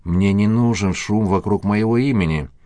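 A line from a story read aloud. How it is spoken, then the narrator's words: Plain. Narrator (Russian): сказал Игорь Никольский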